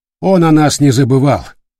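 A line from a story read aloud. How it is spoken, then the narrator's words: Curt, clipped. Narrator (Russian): отрывисто бросил Матиас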